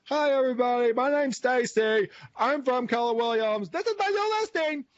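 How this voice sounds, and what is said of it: Odd exaggerated character voice. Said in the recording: “Is Stacy partially deaf? Is that what's going on? What accent was that?”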